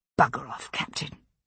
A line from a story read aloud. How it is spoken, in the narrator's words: I said under my breath